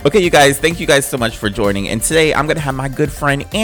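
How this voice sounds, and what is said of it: Usual voice. Nothing is said of it.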